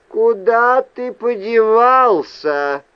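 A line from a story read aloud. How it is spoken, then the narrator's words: Shout from above. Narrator (Russian): крикнул сверху Рэндом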